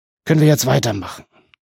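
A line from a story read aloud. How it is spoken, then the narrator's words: Groaning. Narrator (German): Baelund stöhnte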